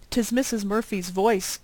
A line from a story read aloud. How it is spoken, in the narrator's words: said Mrs